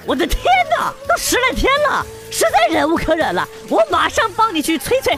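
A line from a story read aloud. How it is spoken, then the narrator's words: Man exclaiming loudly. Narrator (Chinese): 那接电话的哥们就喊了起来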